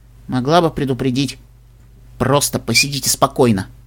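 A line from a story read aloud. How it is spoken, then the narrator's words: Muttered. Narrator (Russian): буркнула Даймон Тиара Ингрид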